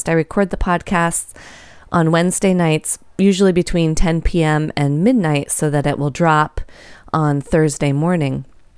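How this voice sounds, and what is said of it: Hoarse voice. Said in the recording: “my voice is a little hoarse, and it totally cut out on me halfway through the podcast ... I just couldn't talk anymore”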